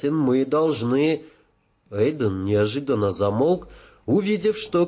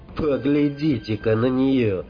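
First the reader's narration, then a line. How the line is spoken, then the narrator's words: Grumbling. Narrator (Russian): проворчала Джоанна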